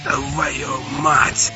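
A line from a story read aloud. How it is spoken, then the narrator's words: Hoarse rasp. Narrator (Russian): Хрипит Анатоль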